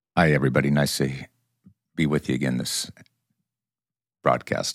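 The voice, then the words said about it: Deep bassy radio announcer voice. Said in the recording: “radio voice ... you do have a really beautiful bassy tone. It's definitely that voice.”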